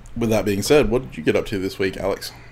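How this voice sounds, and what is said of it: Congested, slightly strained sick voice. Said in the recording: “I still have a cold. And it's slowly migrating to my lungs right now ... My voice is a bit weird, and if I cough occasionally”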